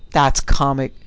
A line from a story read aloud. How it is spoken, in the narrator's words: the other burst out with a cackling laugh